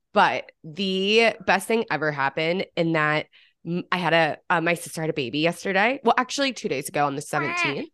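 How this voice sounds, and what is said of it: Congested, stuffy-sounding voice. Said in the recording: “I'm just still a little bit congested. So sorry ... if I sound stuffy ... Sorry if I sound a little bit weird”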